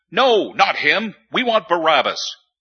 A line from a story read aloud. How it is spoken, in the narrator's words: They shouted